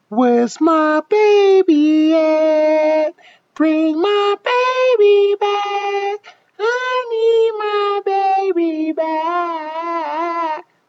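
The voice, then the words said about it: High-pitched singing character voice. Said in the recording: “my high voice, which I call the bees, though the bee's knees, because it's like a higher octave”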